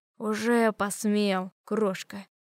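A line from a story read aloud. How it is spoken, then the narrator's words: Hissed close to ear. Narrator (Russian): прошипел прямо над моим ухом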